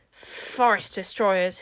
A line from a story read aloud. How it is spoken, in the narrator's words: hissed the wizards